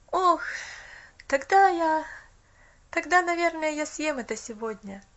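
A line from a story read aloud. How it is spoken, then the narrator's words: Boy sighing. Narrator (Russian): Вздохнул мальчик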